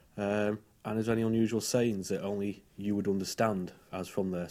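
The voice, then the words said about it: Lancashire English accent. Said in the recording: “my accent ... I'm from Lancashire in the UK”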